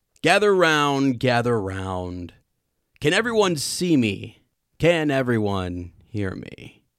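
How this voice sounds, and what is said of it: Lockhart impression. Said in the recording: “give me a good Lockhart impression ... Give me your best Lockhart impression when he greets all his entire audience”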